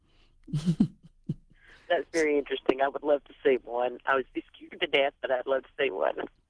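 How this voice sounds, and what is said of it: Alabama Southern accent. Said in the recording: “we live our Alabama accents”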